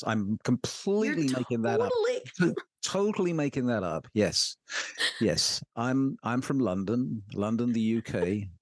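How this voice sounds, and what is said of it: English accent, gorgeous dulcet tones. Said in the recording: “you have the perfect voice. You have these gorgeous dulcet tones ... you have an accent too. So are you from England?”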